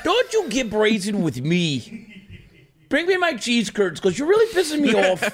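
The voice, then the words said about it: Put-on Wisconsin accent. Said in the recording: “I kind of love the Kenosha, Wisconsin ass accent”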